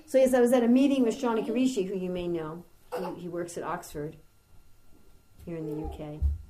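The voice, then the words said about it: Fast American New York accent. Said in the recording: “full-on New Yorker speed ... even with an American accent, you can do it with an American accent”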